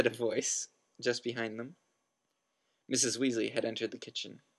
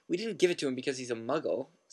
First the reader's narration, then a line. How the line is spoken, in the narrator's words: said Fred indignantly